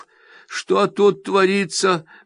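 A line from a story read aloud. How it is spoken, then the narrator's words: Mutter. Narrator (Russian): бормочет Изи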